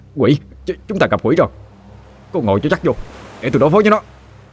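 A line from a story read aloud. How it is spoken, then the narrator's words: Startled yell. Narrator (Vietnamese): Thằng Chớt vừa nhìn thấy đã la lên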